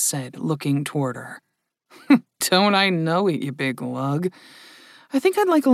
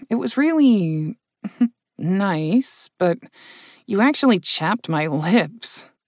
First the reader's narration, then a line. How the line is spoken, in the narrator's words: Vanessa said with a chuckle